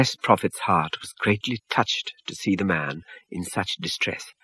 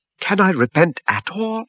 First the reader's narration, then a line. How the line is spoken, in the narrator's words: he cried, very distressed